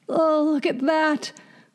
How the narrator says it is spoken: groaned the fiddler

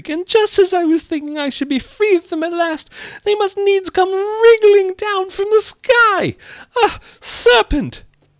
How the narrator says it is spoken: continued the pigeon, rising its voice to a shriek

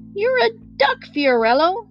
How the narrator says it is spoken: shouted Regina

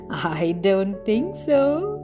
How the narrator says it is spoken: laughed the fine mess of feathers

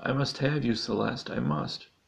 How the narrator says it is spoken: exclaimed the teen

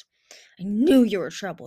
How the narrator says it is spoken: she snarled

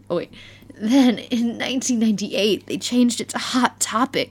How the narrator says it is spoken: he moaned

